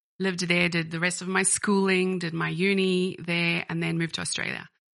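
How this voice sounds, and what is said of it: Colorful mixed accent. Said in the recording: “something very fruity or colorful about your accent”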